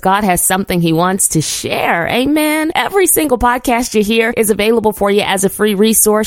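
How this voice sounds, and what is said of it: Slightly raspy, hoarse voice. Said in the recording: “my voice is a little raspy ... my voice is struggling a little bit this morning ... minor hoarseness”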